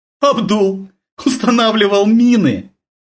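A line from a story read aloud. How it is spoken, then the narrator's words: Cossack woman's deep chesty laugh. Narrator (Russian): Казачка рассмеялась грудным смехом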